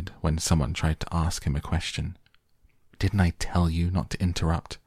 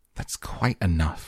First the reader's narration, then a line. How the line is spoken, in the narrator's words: snapped Grandma Josephine